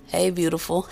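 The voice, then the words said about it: Put-on sexy voice. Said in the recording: “you know how you try to have your sexy voice”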